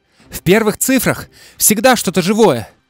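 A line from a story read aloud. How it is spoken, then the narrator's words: Shout. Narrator (Russian): крикнул Джейк ей в спину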